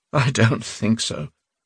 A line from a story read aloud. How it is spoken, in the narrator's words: he said with a miserable laugh